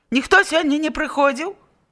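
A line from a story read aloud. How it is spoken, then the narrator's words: Harsh bark. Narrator (Belarusian): гаркнуў Капроўскі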